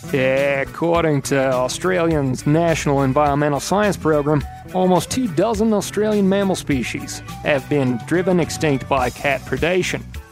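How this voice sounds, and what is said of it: Put-on Australian accent. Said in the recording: “let me try my best Australian accent.”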